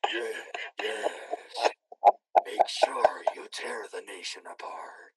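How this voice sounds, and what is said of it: Satan character voice. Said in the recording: “I need to do a voice now too. Assign me a character. ... Satan. ... What does Satan sound like?”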